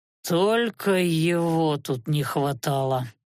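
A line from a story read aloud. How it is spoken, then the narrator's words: Annoyed muttering. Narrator (Russian): с досадой процедил Анхайлик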